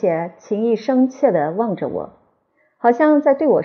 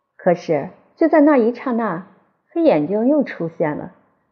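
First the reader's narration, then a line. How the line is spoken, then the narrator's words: Sighing reply. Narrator (Chinese): 皮亚罗特小姐叹了口气，回答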